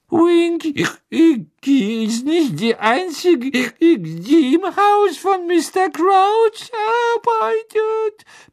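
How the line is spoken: Indignant tipsy squeak. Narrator (German): piepste Winky entrüstet, begann nun gefährlich zu schwanken

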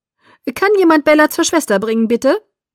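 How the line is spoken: Called out. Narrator (German): rief er

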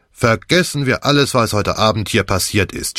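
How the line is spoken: Firm suggestion. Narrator (German): schlug Croft mit fester Stimme vor

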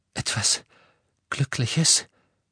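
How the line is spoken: Broken voice. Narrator (German): sagte er mit gebrochener Stimme

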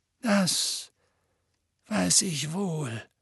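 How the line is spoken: Heavy voice. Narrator (German): sagte Dumbledore mit schwerer Stimme

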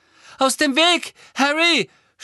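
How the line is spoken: Determined shout. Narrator (German): schrie Neville, sichtlich entschlossen, den Schaden wieder gut zu machen

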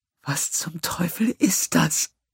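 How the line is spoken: Whisper. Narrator (German): flüsterte Lassala

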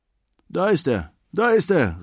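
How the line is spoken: Calling out. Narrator (German): rief

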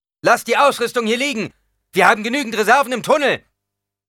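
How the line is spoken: Shout. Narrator (German): rief

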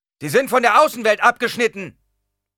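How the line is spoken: Shout. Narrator (German): schrie jemand

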